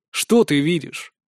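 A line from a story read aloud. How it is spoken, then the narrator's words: Calm but insistent question. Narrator (Russian): Спрашиваю спокойно, но с нажимом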